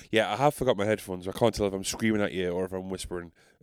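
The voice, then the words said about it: Northeast English South Shields accent. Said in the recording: “As you can tell from my accent, I haven't changed. I keep it all the way real. I'm so gully. I'm so South Shields.”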